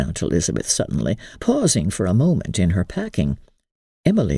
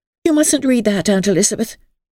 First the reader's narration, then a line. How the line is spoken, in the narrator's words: she cried indignantly